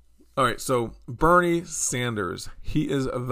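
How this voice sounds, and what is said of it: Usual voice. Nothing is said of it.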